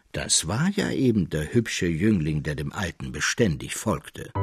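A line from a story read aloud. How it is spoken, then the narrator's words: Calm continuation. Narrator (German): fuhr der Mägler ruhig fort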